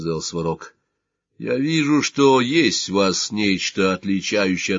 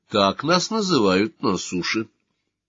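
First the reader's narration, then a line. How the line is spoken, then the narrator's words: Calm girl. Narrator (Russian): спокойно сказала девушка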